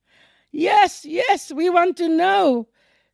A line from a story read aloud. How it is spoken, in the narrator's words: shouted with one voice